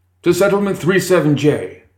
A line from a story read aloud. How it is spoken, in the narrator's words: Birmingham called out